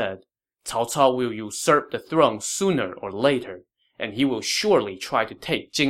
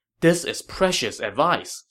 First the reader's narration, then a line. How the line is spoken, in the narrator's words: Sun Quan said happily